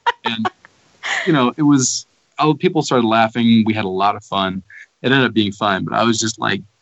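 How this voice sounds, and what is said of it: Usual voice. Nothing is said of it.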